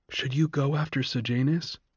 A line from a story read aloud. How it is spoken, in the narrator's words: Lysistrata whispered to Coriolanus